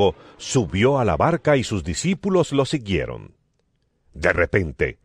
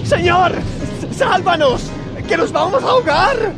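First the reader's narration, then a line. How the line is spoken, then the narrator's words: Shouting. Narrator (Spanish): Gritaron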